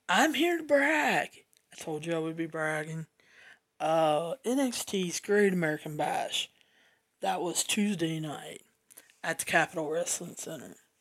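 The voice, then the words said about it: Cracky, strained voice. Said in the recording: “my voice is a little cracky”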